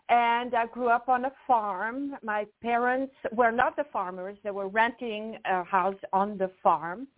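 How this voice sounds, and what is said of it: Swiss French accent. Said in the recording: “originally I am from Switzerland ... where is your accent from? So I'm from actually the French part of Switzerland”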